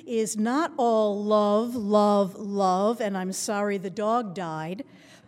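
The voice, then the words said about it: Voice rising, getting louder. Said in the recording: “now my voice is rising ... here I hear myself loudest”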